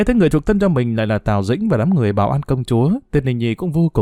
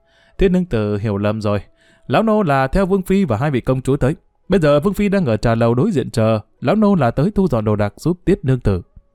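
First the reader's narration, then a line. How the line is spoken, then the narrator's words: Hearty laughter, old man. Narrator (Vietnamese): lão Phúc liền bật cười ha hả đáp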